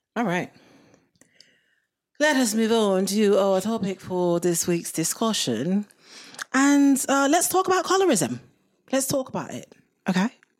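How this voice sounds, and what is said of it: Bad put-on British accent. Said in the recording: “With my awful British accent. ... That was quite bad.”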